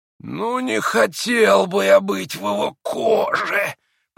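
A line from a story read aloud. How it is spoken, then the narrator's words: Hissing. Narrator (Russian): прошипел Ракитин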